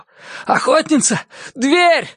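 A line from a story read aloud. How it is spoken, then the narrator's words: Breathless shout. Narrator (Russian): задыхаясь, закричал он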